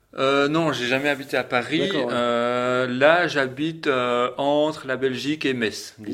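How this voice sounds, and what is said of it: Belgian French accent from Liège. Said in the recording (French): “on entend quand même que tu as un accent ... tu es originaire de Belgique ... J'ai un accent qui vient carrément de Liège.”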